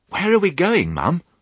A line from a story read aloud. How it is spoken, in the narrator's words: said Babe excitedly